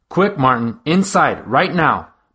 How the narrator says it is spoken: barked Miss Spencer, our principal

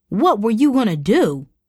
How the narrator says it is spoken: hollered, as if the question were an insult

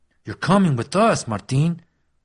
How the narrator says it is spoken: Frankie growled

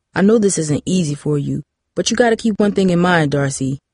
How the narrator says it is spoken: Brian said

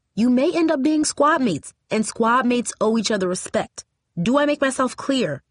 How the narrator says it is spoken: said sternly

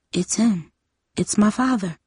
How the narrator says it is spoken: she whispered

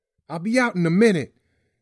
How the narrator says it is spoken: Tyrae hollered

